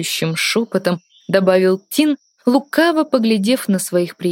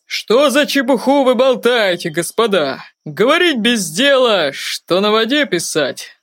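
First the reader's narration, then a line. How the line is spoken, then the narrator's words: Hoarse laughter. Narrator (Russian): Хрипло засмеялся Даг Девайт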